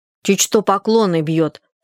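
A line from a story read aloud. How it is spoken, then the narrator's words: Angry. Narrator (Russian): сказала она сердито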